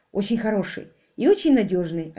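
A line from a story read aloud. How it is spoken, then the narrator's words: Plain. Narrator (Russian): ответил Ник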